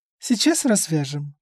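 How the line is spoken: Calm reply. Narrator (Russian): спокойно ответила женщина

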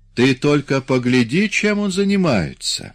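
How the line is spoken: Exclaimed. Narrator (Russian): воскликнул Саас

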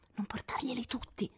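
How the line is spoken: Whispered. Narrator (Italian): sussurrò la vicina

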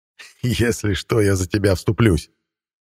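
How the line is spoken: Laughing. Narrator (Russian): рассмеялся Мадьяр

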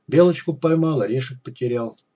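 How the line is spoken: Muttering. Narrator (Russian): бормотал он

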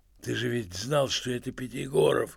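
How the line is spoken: Hoarse undertone. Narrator (Russian): хрипел Евстрат Спиридонович в полголоса

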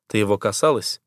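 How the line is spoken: Gloomy question. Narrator (Russian): мрачно спрашиваю я

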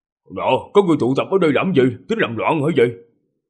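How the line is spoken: Loud shouting, rowdy. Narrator (Vietnamese): Bọn nha dịch quát tháo ầm ĩ

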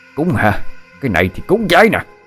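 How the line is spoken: Screaming. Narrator (Vietnamese): ông Long vừa gào thét

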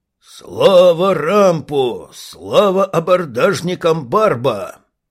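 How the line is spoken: Thunderous roar in unison. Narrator (Russian): взревели в один гремящий голос

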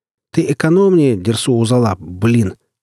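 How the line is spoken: Shout. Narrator (Russian): прокричал я ему

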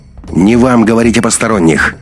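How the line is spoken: Sudden sharp interjection. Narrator (Russian): неожиданно резко вступил Андрей

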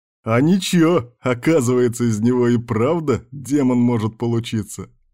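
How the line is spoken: Chuckling. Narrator (Russian): хохотнул Кирк

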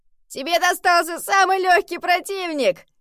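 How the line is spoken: Shouted, huge cat. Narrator (Russian): закричал громадный бенгальский кот

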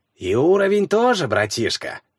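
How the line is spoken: Sly whisper. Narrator (Russian): прошептал тот с хитрющей улыбкой

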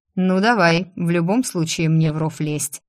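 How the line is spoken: Snorting. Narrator (Russian): хмыкнул Закери

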